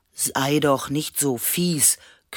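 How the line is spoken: Growled. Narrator (German): knurrte Leo

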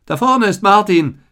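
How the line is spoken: Called out. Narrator (German): rief Theodor

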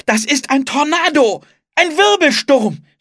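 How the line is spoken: Shouting. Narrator (German): schrie

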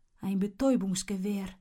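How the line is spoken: Murmuring. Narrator (German): murmelt Oskar

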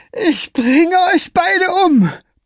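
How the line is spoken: Roared. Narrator (German): brüllte Scapegrace

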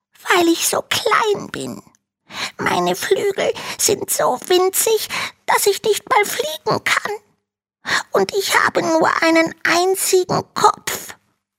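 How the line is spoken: Small dragon hissing. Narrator (German): faucht der kleine Drache

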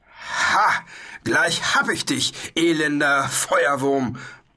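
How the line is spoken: Knight roaring. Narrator (German): brüllte der weiße Ritter

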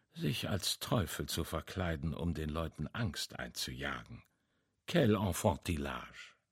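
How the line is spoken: Murmured. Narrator (German): murmelte er

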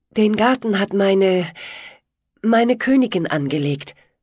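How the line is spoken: Tender voice. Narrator (German): sagte Pitt mit zärtlicher Stimme

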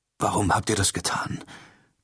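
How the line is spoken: Strained croak. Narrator (German): krächzte Charbadan mühsam

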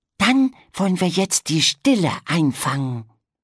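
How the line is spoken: Whispering. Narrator (German): flüsterte Pegeldi

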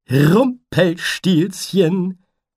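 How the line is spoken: Cheerful butterfly calling. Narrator (German): rief der Schmetterling fröhlich

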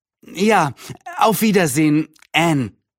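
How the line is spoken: Neighbor calling out. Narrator (German): rief die Nachbarin

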